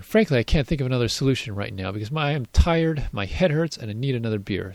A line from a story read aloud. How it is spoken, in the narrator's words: sighed the mayor, the last part more to himself than the crowd